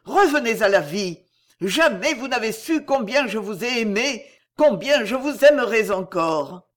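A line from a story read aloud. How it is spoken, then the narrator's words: Exclaimed. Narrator (French): s'écria-t-il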